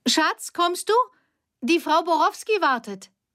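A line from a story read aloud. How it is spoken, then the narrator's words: Woman calling, smiling. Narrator (German): Die Frau lächelte und rief nach hinten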